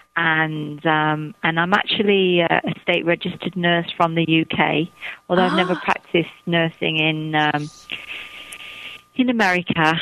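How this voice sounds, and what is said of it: Northern English Manchester accent. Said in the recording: “that beautiful accent ... I'm from the north of England. I'm from Manchester. So, you know, we all have a very distinctive northern accent.”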